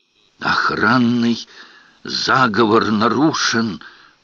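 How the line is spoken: Whisper. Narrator (Russian): прошептал архивариус

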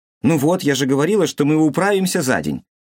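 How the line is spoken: Proud exclamation. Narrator (Russian): С гордостью воскликнула Томи

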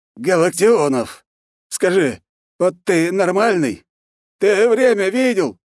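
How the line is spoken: Sleepy man's hoarse rasp. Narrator (Russian): прохрипел сонный мужчина

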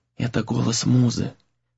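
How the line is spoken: Whispering. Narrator (Russian): прошептала Тора

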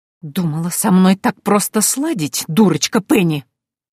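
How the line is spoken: Hissed. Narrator (Russian): прошипела Антария

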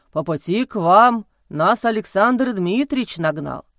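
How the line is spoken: Deep bass voice. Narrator (Russian): пробасил отец Амросий

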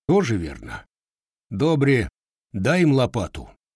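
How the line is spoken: Sighing agreement. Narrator (Russian): Вздохнув, согласился кузнец

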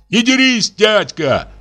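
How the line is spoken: Shout. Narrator (Russian): закричал он

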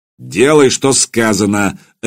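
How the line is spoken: Barking. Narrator (Russian): рявкнул Свардик

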